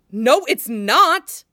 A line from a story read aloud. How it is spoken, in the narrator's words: Anakin says loudly